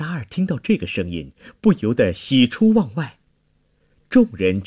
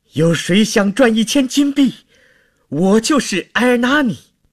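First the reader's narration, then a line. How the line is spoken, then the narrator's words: Desperate shout. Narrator (Chinese): 在绝望中 突然 大叫着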